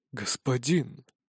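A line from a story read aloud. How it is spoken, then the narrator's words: Muffled, hollow. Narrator (Russian): Глухо произносит советник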